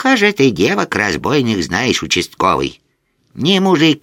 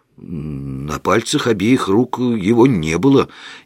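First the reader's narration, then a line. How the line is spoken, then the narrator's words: Uncertain. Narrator (Russian): неуверенно заявил я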